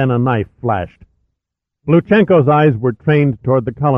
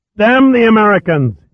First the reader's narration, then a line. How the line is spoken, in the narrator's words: shouted inside his helmet